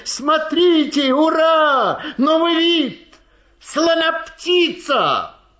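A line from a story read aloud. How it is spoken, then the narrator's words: Jubilant crowd, laughing, shouting. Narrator (Russian): люди вокруг ликовали, смеялись, кричали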